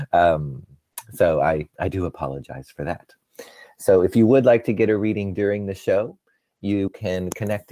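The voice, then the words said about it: Unusually deep, husky voice. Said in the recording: “apologize for my voice ... make my voice sound all deep and sexy”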